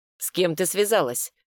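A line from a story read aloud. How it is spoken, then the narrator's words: Sharp question. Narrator (Russian): спросил резко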